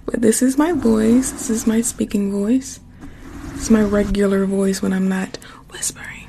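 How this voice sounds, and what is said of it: Slightly hoarse speaking voice. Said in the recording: “I'm a little hoarse... my voice is a little hoarse”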